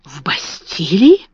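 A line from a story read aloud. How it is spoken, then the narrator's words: Admiring whisper. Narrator (Russian): прошептала Эрмингарда с восхищением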